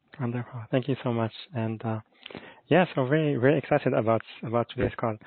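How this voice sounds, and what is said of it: Speaks with a lovely accent. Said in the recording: “I love your voice, and I love your lovely accent”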